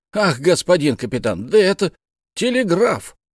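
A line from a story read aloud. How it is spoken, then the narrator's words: Exclamation. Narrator (Russian): Бензуб воскликнул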